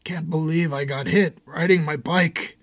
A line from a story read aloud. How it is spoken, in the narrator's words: between sobs Julio said